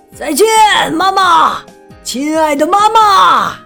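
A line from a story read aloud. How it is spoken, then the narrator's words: Loud shout. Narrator (Chinese): 赫克托大喊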